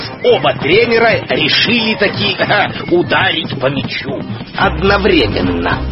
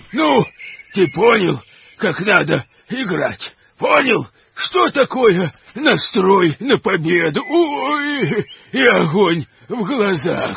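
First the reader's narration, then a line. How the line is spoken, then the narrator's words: Bear groaning in pain. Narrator (Russian): стонал медведь, обхватив травмированную лодыжку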